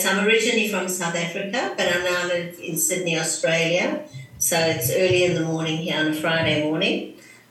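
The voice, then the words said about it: Non-American English accent. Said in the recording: “people are going to know you are not from the United States because of your beautiful accent”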